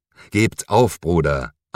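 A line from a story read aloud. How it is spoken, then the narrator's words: Firm reply. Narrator (German): antwortete der Inquisitor mit fester Stimme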